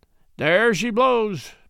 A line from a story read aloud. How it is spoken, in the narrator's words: Matt cried